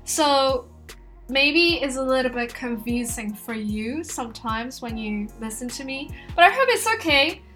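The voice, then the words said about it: Mixed American and British accent. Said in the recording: “I tend to have a mixed accent. Some of my colleagues told me I have an American accent, while some told me I have a British accent.”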